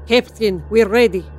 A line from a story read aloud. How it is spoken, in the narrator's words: said Potty Elsia in a thick Russian accent